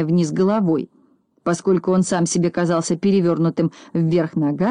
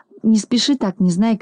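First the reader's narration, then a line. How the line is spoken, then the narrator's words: Pleading. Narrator (Russian): взмолился Пончик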